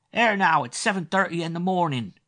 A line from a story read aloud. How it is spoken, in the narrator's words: An outraged voice whined